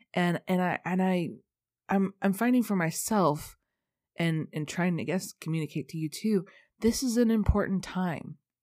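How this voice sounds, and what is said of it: Stuffy, congested voice. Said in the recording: “I'm super stuffy today... I sound really stuffy”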